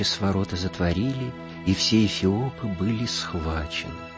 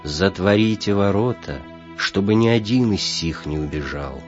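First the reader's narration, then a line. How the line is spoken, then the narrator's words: Menacing and stern. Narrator (Russian): Грозно и строго сказал он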